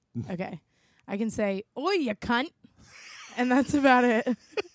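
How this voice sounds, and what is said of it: Slight put-on Australian accent. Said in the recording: “the only thing I can say in a slight Australian accent”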